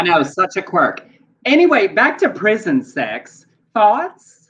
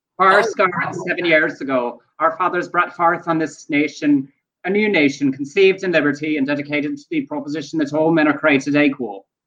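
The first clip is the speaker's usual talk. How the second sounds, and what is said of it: Put-on Irish accent. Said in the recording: “I did a musical called A Man of No Importance with an Irish accent, and the way I switch accents in my real life is I do the Gettysburg Address in the different accent that I'm moving to”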